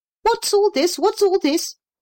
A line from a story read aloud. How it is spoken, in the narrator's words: cried a small voice